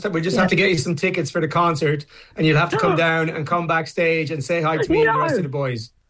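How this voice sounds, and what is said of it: Put-on Irish accent. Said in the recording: “putting on an adorable Irish accent”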